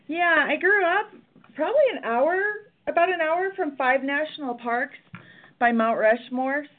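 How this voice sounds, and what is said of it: Midwestern South Dakota accent. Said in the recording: “I'm a Midwest girl. I grew up in Rapid City, South Dakota. It comes out when I say Dakota. Most people can hear that in my accent”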